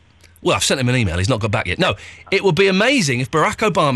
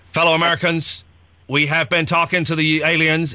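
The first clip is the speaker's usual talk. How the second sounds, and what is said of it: Poor, robotic-sounding presidential impression. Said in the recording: “He doesn't talk like that at all, actually. I can't do it. ... Is Barack Obama now a robot?”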